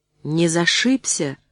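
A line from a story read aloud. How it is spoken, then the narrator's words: Sudden gentle question. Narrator (Russian): вдруг ласково спросила Роза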